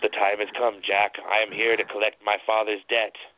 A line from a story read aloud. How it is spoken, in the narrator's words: the little devil hissed with enjoyment